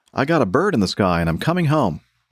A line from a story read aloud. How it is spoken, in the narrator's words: had told her triumphantly